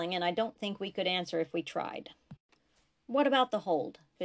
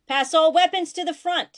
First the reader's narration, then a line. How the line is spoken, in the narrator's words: he shouted